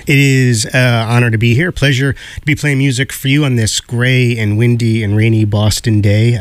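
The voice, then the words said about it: Smoky, under-the-weather radio voice. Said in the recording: “I'm a little under the weather, but I think when you're under the weather, you get that, you know, that smoky, amazing radio DJ voice ... I don't think I sound like this”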